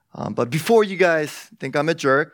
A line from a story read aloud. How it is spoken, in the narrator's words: my mom laughed along with us